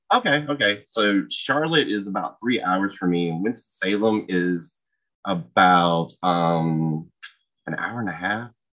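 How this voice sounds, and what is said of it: North Carolina Southern accent. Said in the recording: “I'm in North Carolina. ... If you couldn't tell by the accent, it sounds like cornbread.”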